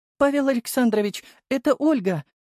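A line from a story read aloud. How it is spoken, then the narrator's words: Excited girl's voice. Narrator (Russian): Голос девушки звучал взволнованно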